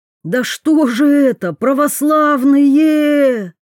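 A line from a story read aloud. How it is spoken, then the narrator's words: Wailing yell. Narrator (Russian): Завопил кто-то из прихлебателей Жарова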